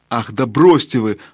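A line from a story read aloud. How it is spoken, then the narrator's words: Exclaiming. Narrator (Russian): воскликнул Юстас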